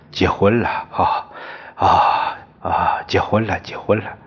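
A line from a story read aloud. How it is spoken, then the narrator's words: Laughing. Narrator (Chinese): 他们笑着说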